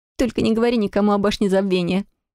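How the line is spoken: Squeak. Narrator (Russian): пискнула я

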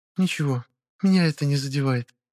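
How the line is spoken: Quiet reply. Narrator (Russian): тихо отозвалась

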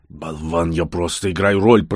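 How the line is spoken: Angry growl. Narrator (Russian): продолжал рычать Верзил

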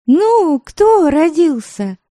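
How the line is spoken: Breathless shout. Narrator (Russian): Первым делом выкрикнула запыхавшаяся

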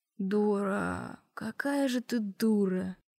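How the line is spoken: Laughing. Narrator (Russian): сквозь смех произнес

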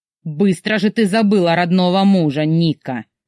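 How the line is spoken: Malicious sneer. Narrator (Russian): злобно усмехнулся

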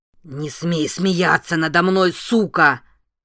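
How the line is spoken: Roar. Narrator (Russian): взревел Дули

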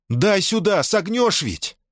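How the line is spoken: Shouted. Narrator (Russian): крикнула Мона Сенья

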